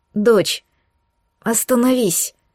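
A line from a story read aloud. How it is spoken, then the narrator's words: Hoarse pleading. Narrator (Russian): умоляла она осипшим голосом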